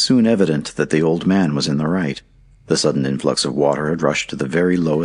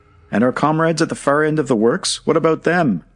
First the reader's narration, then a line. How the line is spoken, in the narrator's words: cried some of the miners